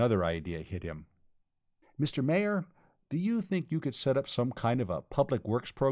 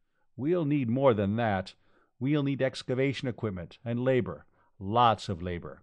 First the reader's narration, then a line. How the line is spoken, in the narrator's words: Khan said